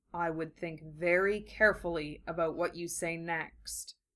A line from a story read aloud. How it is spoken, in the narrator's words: Gaara said softly